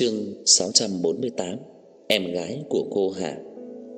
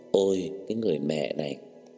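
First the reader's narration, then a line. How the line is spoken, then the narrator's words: Choked tearful voice. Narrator (Vietnamese): Ân Nguyệt Dung lại cảm thấy cảm động, nghẹn ngào rơi lệ nói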